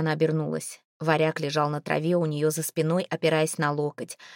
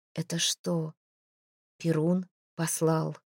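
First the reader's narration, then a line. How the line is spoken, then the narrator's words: Timid question. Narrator (Russian): спросила она робко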